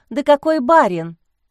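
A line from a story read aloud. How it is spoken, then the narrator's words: Indignant question. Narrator (Russian): возмущенно спросила Лиза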